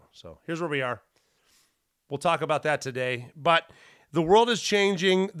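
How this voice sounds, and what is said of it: Deep, rough voice with dry throat. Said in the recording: “I cough a little bit ... to get a cold. This is the remnants. ... the dry throat and the cough, is you get that sexy ass deep voice”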